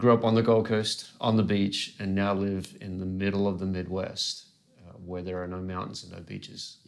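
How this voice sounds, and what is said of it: Australian accent. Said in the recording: “Australian accent, which is the weird accent you hear”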